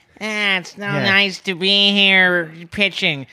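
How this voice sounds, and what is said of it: Imitates another person's voice. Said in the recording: “my impersonation of Louie Anderson as a pitcher ... Really good. Really good.”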